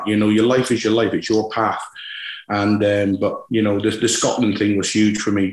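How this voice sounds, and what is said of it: West Country English accent. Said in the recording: “West Country accent ... I'm a thoroughbred Scotsman with a West Country accent.”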